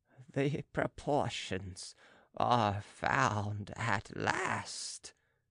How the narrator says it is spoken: he mumbled

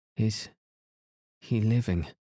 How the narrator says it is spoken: gasped Emily

